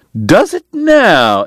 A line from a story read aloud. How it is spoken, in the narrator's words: Eddie cried